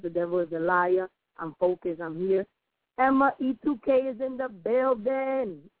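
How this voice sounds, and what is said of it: Slightly raspy voice. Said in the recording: “A little raspy this morning”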